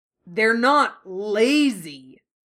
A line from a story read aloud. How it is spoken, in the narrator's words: Kanji shouted